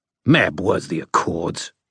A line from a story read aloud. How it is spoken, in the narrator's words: LaChase spat